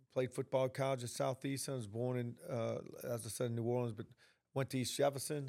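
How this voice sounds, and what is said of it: Country New Orleans accent. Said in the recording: “I'm originally from New Orleans. You can tell by this little country accent I have”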